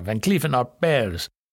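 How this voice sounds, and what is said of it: Put-on French accent. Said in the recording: “Put a little French accent there.”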